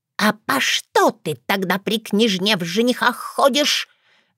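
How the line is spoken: Angry whisper, softening. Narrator (Russian): Гневным шепотом, но уже более мягко вопросила взъерошенная воронесса

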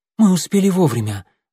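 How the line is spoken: Breathless exhale. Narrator (Russian): выдохнула

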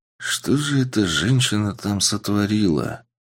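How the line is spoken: Quiet male muttering. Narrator (Russian): Тихо пробормотал мужчина

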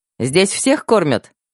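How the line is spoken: Cheerful question. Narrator (Russian): весело поинтересовалась девушка

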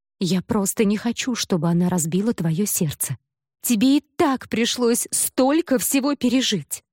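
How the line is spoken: Sudden tearful exclamation. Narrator (Russian): вдруг воскликнула она, и от досады на то, что брат сознательно бросается навстречу несчастью, у нее на глазах выступили слезы

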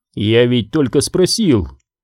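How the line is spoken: Mocking objection. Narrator (Russian): насмешливо возразил Паркер

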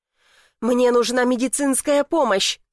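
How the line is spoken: Shouting man. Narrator (Russian): кричал он

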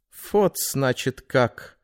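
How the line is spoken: Thoughtful. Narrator (Russian): задумчиво произнес Кессених

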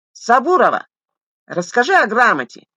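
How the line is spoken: Young man shouting. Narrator (Russian): крикнул с места гривастый юноша

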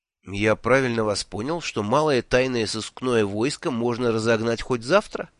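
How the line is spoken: Plain question. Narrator (Russian): спросил я

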